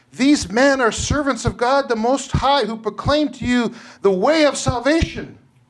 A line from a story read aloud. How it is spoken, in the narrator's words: she cried out